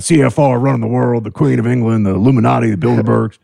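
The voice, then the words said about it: Alex Jones conspiracy-rant impression. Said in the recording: “Alex Jones fans ... That's a good imitation.”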